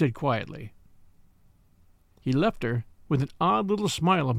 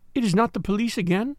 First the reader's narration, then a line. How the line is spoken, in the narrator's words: said Marie anxiously